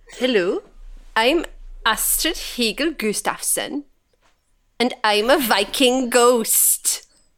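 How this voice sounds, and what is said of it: Put-on exaggerated Swedish accent. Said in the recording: “doing an accent for this one... Hurdy-gurdy Swedish accent... This is going to get long, this accent.”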